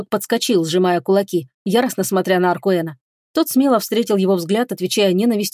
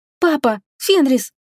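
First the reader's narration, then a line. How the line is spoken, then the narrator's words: Frightened exclamation. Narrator (Russian): испуганно воскликнула Исалиэль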